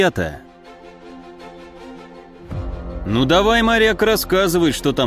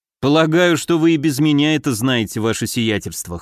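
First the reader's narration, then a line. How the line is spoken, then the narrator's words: Wry snort. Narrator (Russian): хмыкнул я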